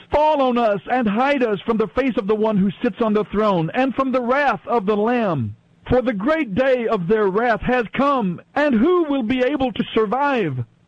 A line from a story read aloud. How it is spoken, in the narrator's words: they cried to the mountains and the rocks